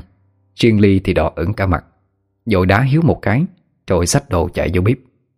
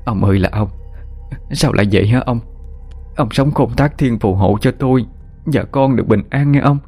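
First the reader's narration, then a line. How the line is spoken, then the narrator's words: Old woman's tearful wailing. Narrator (Vietnamese): Bà Mai khóc lóc ỉ ôi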